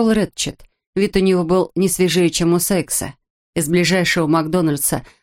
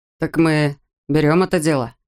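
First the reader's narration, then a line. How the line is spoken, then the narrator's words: Gloomy question. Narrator (Russian): спросил Рэтчет, мрачно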